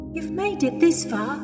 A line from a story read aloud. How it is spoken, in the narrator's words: Louise said, almost pleading